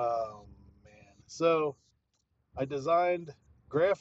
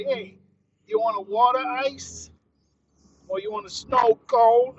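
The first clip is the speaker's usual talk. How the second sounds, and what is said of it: Bad put-on Philly accent. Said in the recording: “It's probably a bad Philly accent”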